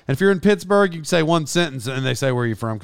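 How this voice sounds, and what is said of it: Oklahoma accent with a twang. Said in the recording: “being from Oklahoma, I would imagine I don't sound, I'm sure I have a twang.”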